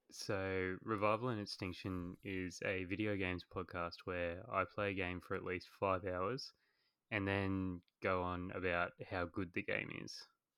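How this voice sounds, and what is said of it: Australian accent. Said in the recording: “as you guys can probably tell from my voice, I am Australian.”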